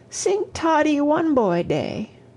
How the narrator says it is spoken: Toddie sobbed

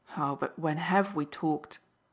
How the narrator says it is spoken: he sharply interrupted

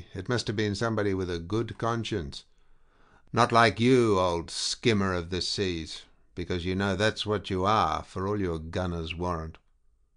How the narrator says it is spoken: he added grimly

